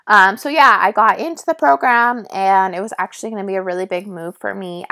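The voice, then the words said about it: Raspy voice. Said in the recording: “my voice is really raspy”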